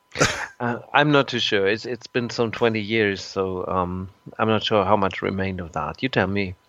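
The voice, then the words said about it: German-accented English. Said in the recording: “you sound German, ... but your English is very excellent.”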